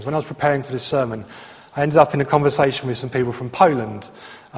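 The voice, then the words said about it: English regional accent, not Queen's English. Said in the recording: “my accent, I'm born in Essex, grew up in Luton, I went to university in Bristol, I've now ended up somewhere outside of Slough. It's not Queen's English, right? I'm not going to get a job reading the news on the BBC with my accent.”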